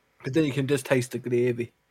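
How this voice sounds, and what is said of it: Weird put-on accent. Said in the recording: “I don't know why I went into a weird accent for that one.”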